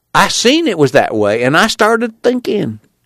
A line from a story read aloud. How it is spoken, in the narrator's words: he cried